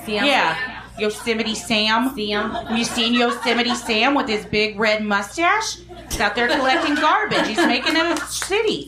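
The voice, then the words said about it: Weak put-on Midwestern accent. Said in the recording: “Is that kind of Midwest? That wasn't a very good accent. ... It was more kind of, I don't know what accent that was. I apologize.”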